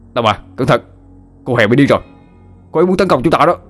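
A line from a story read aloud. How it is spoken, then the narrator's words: Loud shout. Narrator (Vietnamese): Hậu hét lớn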